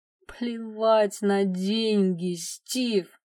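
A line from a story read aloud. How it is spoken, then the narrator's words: Moaning. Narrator (Russian): простонала Энди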